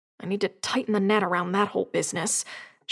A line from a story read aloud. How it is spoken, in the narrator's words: she added, almost under her breath